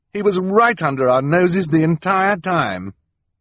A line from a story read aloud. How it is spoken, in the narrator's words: sneer